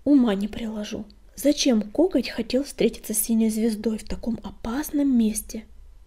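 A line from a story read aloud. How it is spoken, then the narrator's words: Hiss. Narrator (Russian): прошипел он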